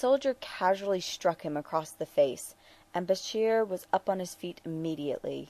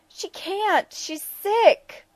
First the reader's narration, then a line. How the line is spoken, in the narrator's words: the boy shrieked